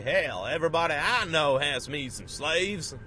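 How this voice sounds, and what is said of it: Poor put-on Southern US accent. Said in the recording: “What a terrible Southern accent. I really only have one foreign accent, so I just sort of mishmash around it.”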